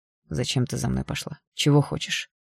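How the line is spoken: Through gritted teeth. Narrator (Russian): процедил сквозь зубы Игнат

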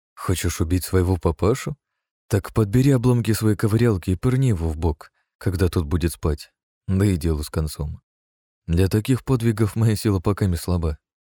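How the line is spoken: Cheerful smirk. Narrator (Russian): усмехнулся весело я

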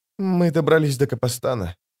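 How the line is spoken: Trembling voice. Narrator (Russian): дрожащим голосом сказала Скалла

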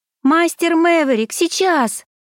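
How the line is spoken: Shout. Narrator (Russian): крикнула я

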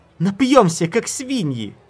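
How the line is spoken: Delighted shrieking, two voices. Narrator (Russian): Шрет и Лаор завизжали от восторга

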